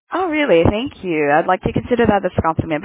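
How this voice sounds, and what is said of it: Australian-influenced English accent. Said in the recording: “where are your accent from? It's beautiful ... I used to stay in Australia for, quite a bit of time, so maybe that's why I have that ... I have that accent.”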